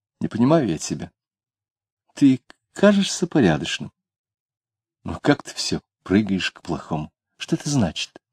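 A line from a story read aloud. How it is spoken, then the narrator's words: Girl, puzzled and sad. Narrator (Russian): девушка недоуменно, печально говорила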